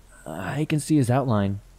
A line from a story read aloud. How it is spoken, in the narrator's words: she said